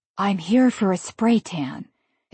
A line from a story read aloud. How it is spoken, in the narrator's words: whispered to the receptionist